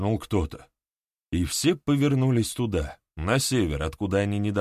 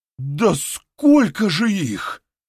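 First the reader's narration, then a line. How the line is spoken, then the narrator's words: Exclaimed. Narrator (Russian): воскликнул кто-то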